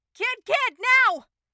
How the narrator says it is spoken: Kiki took a steadying breath and broke into a run, shouting

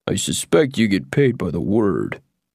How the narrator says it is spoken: the Munchkin muttered

